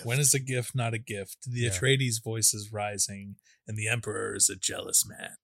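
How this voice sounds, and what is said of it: Skarsgård impression, gravelly voice. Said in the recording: “I wish I had the pretty like decent Skarsgård accent... I wish I had it better... It wasn't bad. It was pretty good... I need to like smoke like 8 more cigarettes before I do it.”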